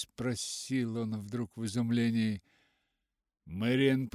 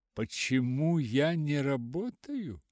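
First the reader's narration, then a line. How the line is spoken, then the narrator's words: Forced, insincere laugh. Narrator (Russian): Мартин засмеялся, но смех его звучал не слишком искренно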